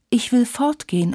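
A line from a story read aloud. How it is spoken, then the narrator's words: Plain. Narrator (German): antwortete Tilly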